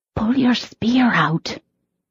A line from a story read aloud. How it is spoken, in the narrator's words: she whispered